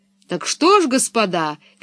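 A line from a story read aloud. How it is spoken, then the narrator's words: Shouting. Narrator (Russian): кричал директор цирка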